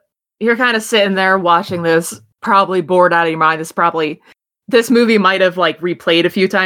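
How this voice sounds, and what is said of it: Usual voice. Nothing is said of it.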